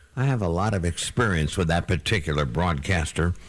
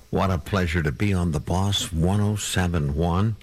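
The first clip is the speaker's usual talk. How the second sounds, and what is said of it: Whispering. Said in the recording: “I don't know why I'm whispering... What am I whispering for?”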